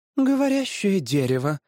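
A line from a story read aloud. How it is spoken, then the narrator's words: Sighing. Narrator (Russian): вздохнула женщина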